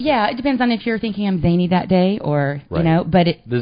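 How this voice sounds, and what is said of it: Texas accent. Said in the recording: “I love the accent, by the way. you're from Texas.”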